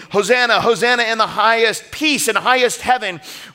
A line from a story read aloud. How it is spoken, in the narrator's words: when they're shaking their palms and laying down their cloaks, yell